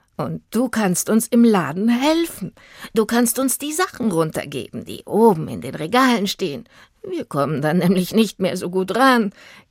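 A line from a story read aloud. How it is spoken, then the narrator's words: Giggling. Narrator (German): kicherte sie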